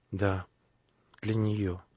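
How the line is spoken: Quiet answer. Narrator (Russian): тихо ответил князь

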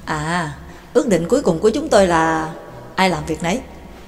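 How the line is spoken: Self-mocking tone. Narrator (Vietnamese): McGinn nói bằng một giọng tự giễu

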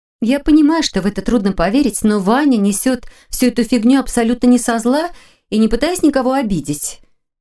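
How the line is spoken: Cheerful remark. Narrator (Russian): весело заметила Лиля

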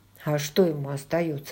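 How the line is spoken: Low undertone. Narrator (Russian): ответил Джейми вполголоса, чтобы не разбудить Хиггинсов

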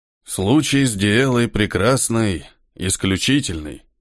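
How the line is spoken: Dry voice. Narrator (Russian): говорил тот сухим голосом

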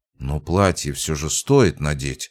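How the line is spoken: Muttered. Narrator (Russian): пробормотала Света

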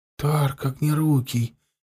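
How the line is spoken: Barely audible reply. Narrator (Russian): еле слышно отозвался Шаркан

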